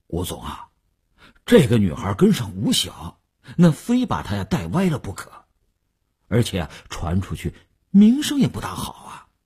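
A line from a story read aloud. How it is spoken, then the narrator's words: Hesitant, reluctant. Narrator (Chinese): 李大公欲言又止……李大公才说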